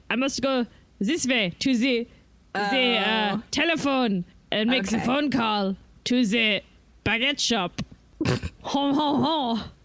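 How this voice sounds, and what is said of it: Exaggerated bad French accent. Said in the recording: “you have an accent ... Bad French accents ... It was a great French accent.”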